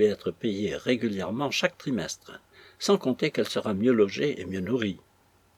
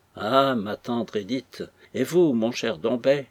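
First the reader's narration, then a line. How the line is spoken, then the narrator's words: Moved exclamation. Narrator (French): s'écrie une voix émue sur l'escalier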